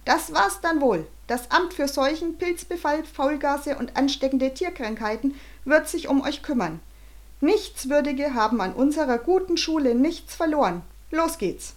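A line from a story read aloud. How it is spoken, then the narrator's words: Muffled voice calling. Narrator (German): eine vermummte Stimme rief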